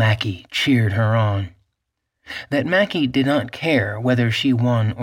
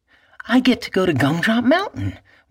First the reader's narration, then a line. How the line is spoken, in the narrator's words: Maggie exclaimed